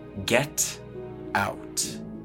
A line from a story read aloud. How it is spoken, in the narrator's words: growled